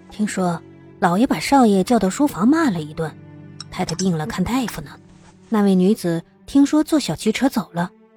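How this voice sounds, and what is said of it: Quiet, hushed voice. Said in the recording (Chinese): “小声的打了两句小报告”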